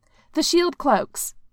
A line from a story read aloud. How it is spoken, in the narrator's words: one of the Dora Milaje exclaimed